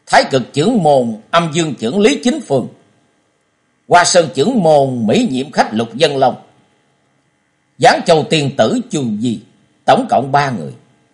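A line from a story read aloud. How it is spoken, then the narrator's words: Loud repeating. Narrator (Vietnamese): Trần Lâm to tiếng lặp lại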